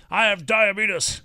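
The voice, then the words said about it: Imitates another person's voice. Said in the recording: “Wilford Brimley, for some reason, is a thing that he loves to like imitate ... his Wilford Brimley impression”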